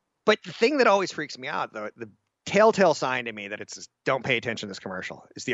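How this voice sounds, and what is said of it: Usual voice. Nothing is said of it.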